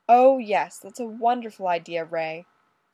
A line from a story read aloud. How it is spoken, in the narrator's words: Fraser snapped